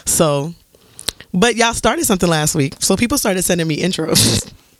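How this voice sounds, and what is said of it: Deep, hoarse, congested voice. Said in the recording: “I also sound like a man, so please excuse my voice. ... that sounds like Remy Ma with a sinus infection”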